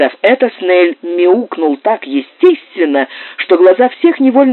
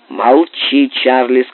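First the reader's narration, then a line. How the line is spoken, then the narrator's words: Plain. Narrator (Russian): сказал Тернбуль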